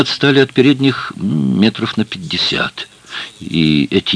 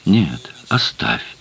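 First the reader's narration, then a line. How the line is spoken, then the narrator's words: Quiet reply. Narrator (Russian): тихо ответила она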